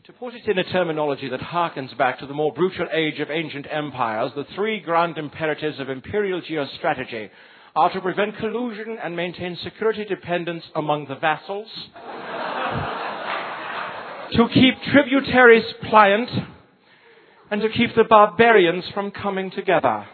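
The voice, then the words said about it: Put-on British accent. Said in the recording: “I should maybe do this one in a British accent.”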